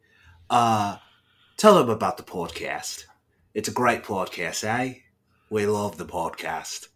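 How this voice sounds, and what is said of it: Put-on Australian accent. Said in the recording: “I'm just going to do an Australian accent because that's easier than New Zealand”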